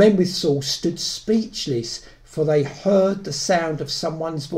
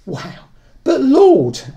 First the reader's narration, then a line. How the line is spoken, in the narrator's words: Ananias exclaims